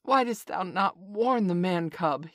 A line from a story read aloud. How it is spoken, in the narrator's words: he roared